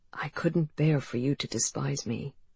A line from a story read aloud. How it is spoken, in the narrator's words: In a softer voice, he said